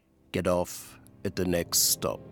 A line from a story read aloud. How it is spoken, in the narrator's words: a young man turns towards me, very clean-cut face, cold, gray eyes, and says quietly